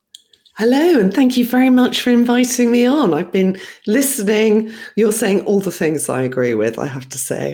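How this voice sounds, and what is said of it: Calm British accent. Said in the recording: “that lovely British accent, the calming voice ... with a lovely British accent”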